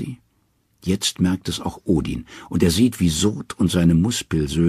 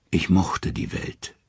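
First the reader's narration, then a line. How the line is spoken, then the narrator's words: Calm. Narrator (German): sagt er ruhig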